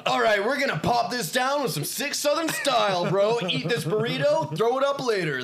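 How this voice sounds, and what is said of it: Put-on Southern California dude accent. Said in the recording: “accent of Flavortown ... Southern California.”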